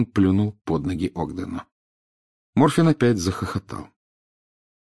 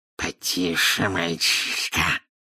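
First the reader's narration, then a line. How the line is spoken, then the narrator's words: Hissing in snake tongue. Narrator (Russian): прошипел Мракс на змеином языке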